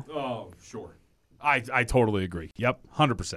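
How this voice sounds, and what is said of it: Sarcastic tone. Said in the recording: “Are you being sarcastic? ... A little bit.”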